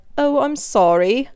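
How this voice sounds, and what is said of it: Weak put-on British accent. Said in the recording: “Obviously, my British accent isn't great”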